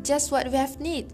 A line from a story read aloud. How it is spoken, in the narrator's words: the woman exclaimed